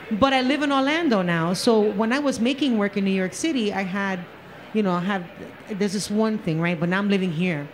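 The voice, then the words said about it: Bronx New York accent. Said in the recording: “in case you didn't notice by my accent, I kind of come from the Bronx”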